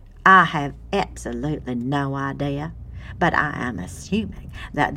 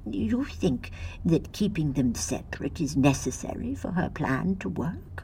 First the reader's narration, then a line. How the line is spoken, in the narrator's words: Pete murmured